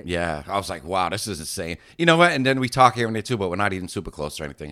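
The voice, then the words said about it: Strong Boston accent. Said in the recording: “You still have a strong Boston accent like my mom”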